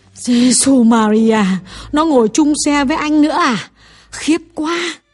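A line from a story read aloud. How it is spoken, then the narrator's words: Shocked exclamation. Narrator (Vietnamese): Bà Lâm kêu lên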